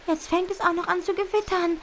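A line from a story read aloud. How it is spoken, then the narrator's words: Desperate cry. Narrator (German): ruft Butterblume verzweifelt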